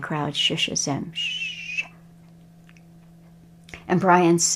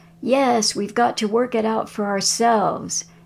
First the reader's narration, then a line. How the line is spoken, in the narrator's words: And the crowd screams